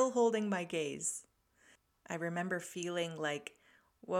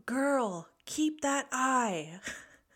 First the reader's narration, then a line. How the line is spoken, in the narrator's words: yelled out